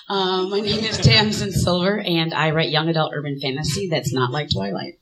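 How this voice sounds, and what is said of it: Hoarse, fading, slightly quiet voice. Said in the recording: “I'm losing my voice a little bit, so I might be a little quieter than you want me to be”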